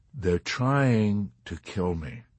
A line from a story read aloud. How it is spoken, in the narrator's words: Yossarian told him calmly